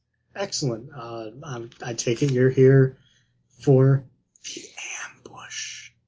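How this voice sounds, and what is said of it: Whispering voice. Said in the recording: “Why are you whispering?”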